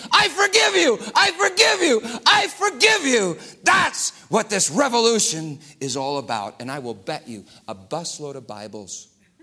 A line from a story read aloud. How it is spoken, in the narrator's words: he screamed